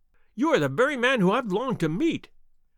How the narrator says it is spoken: cried the little fellow

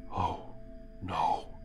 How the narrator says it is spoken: Simon whispers

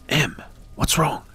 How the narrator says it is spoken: I asked quietly

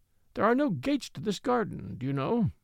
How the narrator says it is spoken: he said meekly

